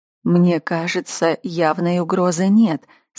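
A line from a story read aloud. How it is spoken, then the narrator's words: Calmly. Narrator (Russian): спокойно ответила она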